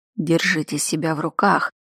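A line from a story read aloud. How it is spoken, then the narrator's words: Quiet remark. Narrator (Russian): негромко заметил Кайда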